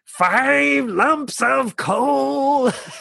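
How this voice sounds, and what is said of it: Terrible impression of singing characters. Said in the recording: “That was a terrible impression.”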